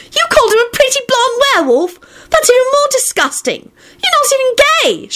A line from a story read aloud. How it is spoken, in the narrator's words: she shrieked